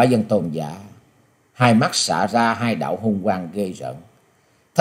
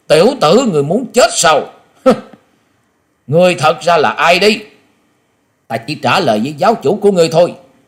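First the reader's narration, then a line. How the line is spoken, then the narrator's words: Sudden shout. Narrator (Vietnamese): Quả Dân Tôn giả chợt quát lên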